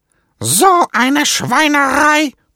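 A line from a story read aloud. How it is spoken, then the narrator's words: Blustering outburst. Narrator (German): poltert Knallfrosch Franz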